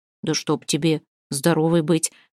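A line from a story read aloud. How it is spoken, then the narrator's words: Astonished muttering old man. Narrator (Russian): В изумлении пробормотал старик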